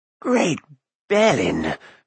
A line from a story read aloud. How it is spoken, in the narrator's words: Fluda gasped